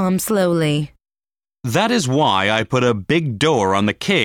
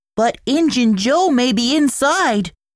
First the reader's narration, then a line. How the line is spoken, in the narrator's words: he cried